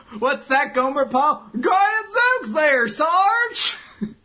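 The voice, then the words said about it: Exaggerated southern hick voice. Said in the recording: “You sure love your southern hick voices, don't you? Notice you do that a lot.”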